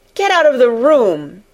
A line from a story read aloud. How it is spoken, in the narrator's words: he shouted